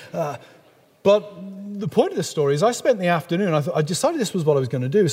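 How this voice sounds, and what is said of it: English accent. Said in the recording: “somebody like me with a beautiful English accent ... my beautiful English accent”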